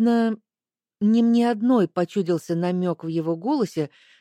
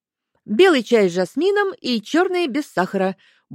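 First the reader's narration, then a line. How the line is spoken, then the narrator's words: Brisk cheerful report. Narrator (Russian): бодро отрапортовал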